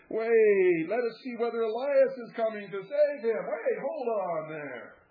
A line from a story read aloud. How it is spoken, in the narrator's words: Those who had been shouting about Elias ... exclaiming